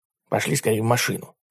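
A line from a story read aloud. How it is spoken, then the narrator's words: Whisper. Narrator (Russian): прошептал Ларри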